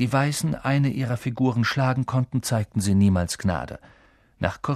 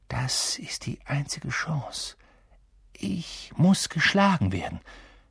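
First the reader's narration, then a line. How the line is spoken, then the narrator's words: Quiet. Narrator (German): sagte Ron leise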